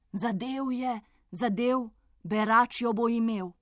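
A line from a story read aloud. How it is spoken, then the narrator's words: Crowd exclaiming together. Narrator (Slovenian): so kraljična, kralj in ves dvor vzkliknili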